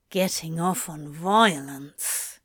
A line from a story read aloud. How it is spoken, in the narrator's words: he grumbled at himself